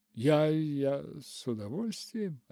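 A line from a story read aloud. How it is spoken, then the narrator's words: Uncertain. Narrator (Russian): отвечала Руфь неуверенно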